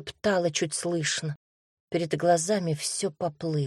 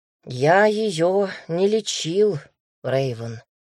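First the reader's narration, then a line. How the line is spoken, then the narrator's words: Sighed. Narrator (Russian): вздохнул Дамир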